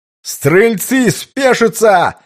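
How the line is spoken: Full-lung commander's shout. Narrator (Russian): во всю мощь легких прокричал десятник

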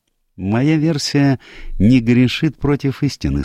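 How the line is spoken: Calm reply. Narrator (Russian): спокойно ответил Пуаро

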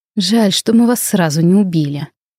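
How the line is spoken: Grim. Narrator (Russian): мрачно заявил Тириэль

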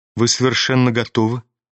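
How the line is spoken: Quiet, seemingly calm. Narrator (Russian): заметила она тихо и как бы спокойно

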